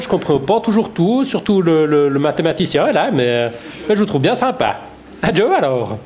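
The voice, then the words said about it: Swiss French accent. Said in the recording (French): “un vrai accent suisse”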